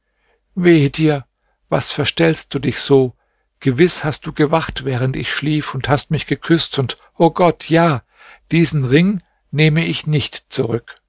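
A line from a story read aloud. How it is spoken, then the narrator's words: Deep sigh, then speaking. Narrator (German): seufzte sie tief auf und sagte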